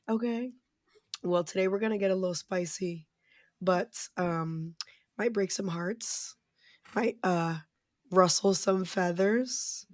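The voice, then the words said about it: Hoarse, fading voice. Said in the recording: “as you can hear. My voice is on its way out”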